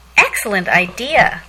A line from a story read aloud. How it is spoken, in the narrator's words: Lacey exclaimed